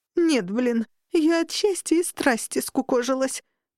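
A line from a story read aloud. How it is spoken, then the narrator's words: Muffled moan from below. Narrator (Russian): простонала из-под кровати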